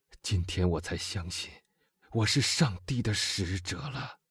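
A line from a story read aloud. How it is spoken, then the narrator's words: Softly spoken. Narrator (Chinese): 他轻声地说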